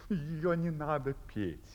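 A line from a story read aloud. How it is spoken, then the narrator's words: Plain. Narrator (Russian): ответил Августин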